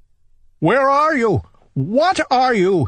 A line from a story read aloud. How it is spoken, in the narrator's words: he cried